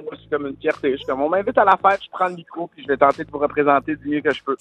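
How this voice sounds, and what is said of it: Quebec City French accent. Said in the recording (French): “mon accent de la ville de Québec soit entendu partout au Québec ... un accent qui résonne fort en eux”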